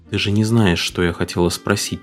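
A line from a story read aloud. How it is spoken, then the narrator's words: Quiet, mother. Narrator (Russian): тихо сказала мама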